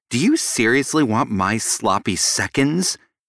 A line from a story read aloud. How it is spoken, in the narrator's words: She snarled